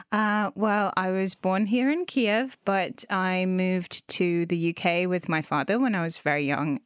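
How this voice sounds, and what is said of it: English accent. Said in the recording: “you have such a nice English accent ... a Ukrainian speaking with a proper English ... this English accent”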